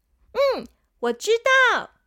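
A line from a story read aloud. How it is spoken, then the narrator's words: Loud child's answer. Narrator (Chinese): 小朋友大声的回答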